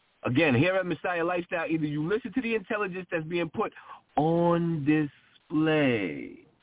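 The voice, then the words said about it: Imitating another speaker's delivery. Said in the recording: “as Brother Arthur would say, I'm mimicking him my best way”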